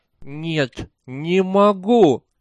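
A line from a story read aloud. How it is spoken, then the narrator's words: Barely intelligible moan. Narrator (Russian): простонал он едва разборчиво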